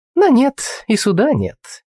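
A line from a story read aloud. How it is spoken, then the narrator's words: Mocking, smiling. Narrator (Russian): насмешливо улыбнулась девушка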